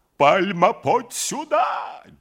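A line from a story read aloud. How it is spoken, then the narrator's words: Wild shout. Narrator (Russian): дико закричал Семенов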